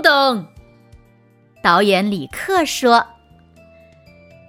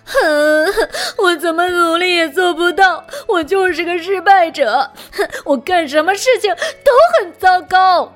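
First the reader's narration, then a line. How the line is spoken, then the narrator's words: Loud crying. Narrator (Chinese): 他大哭着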